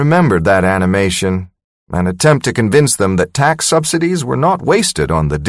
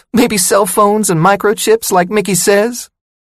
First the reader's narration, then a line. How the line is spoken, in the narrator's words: She squeaked her voice like the mouse in the cartoon